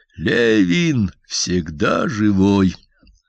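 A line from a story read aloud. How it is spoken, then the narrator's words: Slow solemn. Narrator (Russian): И медленно, торжественно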